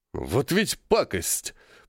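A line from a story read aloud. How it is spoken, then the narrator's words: Grumbling. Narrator (Russian): проворчал полковник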